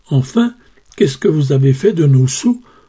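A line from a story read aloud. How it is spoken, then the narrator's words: Exasperated stammer. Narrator (French): balbutia la malheureuse Jeannette à bout de patience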